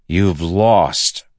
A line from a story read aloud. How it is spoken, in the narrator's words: Adolin growled